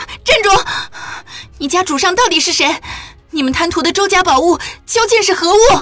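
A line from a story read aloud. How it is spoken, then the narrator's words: Urgent shouting. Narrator (Chinese): 见他要走，嚷道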